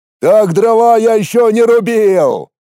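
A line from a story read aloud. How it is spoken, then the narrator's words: Shouting bear. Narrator (Russian): выкрикнул медведь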